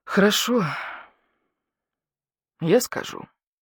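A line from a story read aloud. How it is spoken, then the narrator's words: Heavy sigh. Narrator (Russian): тяжело вздохнул барсук-старший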